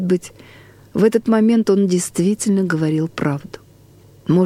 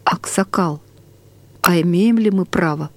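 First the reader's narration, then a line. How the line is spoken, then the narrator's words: Whisper. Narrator (Russian): Бажанов шепотом сказал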